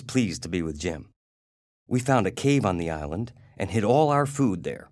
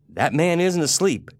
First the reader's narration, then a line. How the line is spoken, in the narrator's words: Jim said